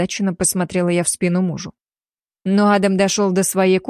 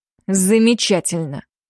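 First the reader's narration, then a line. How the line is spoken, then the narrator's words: Grumbling through teeth. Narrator (Russian): сквозь зубы пробурчал Уильямс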